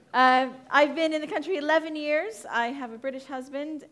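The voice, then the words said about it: American accent. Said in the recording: “That is an American accent you are hearing. Just to clear up any Canadian issues.”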